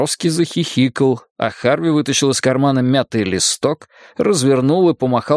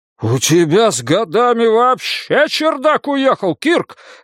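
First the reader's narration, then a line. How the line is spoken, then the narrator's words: Furious yelling. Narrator (Russian): вне себя завопил Браун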